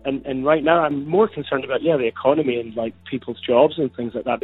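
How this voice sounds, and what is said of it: Scottish accent. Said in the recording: “you have a very impressive Scottish accent there”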